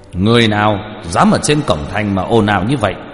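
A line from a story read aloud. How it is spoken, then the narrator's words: Loud distant shout. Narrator (Vietnamese): dẫn đầu là một tên linh quan, từ phía xa đã thấy liền lớn tiếng quát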